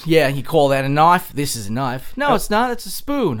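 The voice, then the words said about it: Imitated Australian accent. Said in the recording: “You're channeling Bruce like a champ right there ... I don't quite have the accent down”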